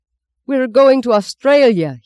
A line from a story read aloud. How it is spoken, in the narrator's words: yelled